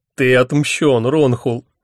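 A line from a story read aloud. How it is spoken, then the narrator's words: Speaking through laughter. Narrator (Russian): сквозь смех выговорил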